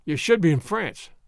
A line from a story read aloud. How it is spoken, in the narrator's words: said one man